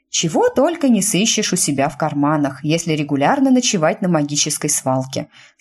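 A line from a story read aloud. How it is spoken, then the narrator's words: Calm explanation. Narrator (Russian): спокойно пояснила мисс Смит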